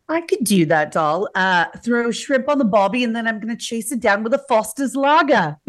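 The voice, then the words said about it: Fairly good put-on Australian accent. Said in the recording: “I want you to do an Australian accent ... That's pretty good.”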